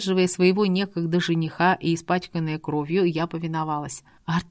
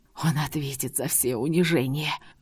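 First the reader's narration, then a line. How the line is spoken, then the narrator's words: Angry whisper. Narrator (Russian): гневно прошептал Арт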